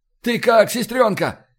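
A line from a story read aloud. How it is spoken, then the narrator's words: Shouted from a distance. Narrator (Russian): крикнул из боевой рубки Фокс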